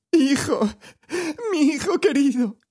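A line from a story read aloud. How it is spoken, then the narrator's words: Grief-stricken sobbing. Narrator (Spanish): sollozaba ésta sobre aquella espantosa ruina de su primogénito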